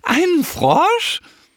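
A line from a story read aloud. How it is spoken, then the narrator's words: Wild squealing. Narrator (German): halten sich den Bauch und quieken wild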